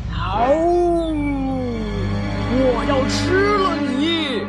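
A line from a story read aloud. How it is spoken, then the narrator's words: Roar. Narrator (Chinese): 他……大吼一声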